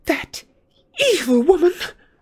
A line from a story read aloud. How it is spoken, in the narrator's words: gasped Hermione, who seemed to be having difficulty due to rage with her speech